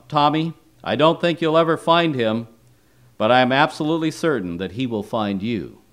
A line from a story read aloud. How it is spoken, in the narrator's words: called out